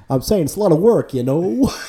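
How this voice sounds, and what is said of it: Imitates another person's voice. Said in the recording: “Like a Rodney Dangerfield? ... That was a terrible impression. ... I'm terrible at impressions.”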